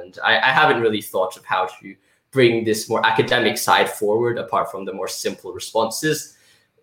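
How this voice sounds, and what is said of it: Posh British accent. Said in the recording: “You sound British ... I guess I do have that accent ... It's a posh accent”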